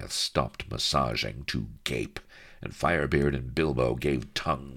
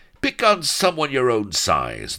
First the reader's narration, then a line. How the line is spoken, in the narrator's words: they roared